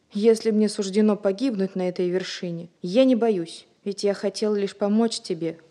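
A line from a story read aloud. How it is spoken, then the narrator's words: Exclaiming. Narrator (Russian): воскликнул Ульрик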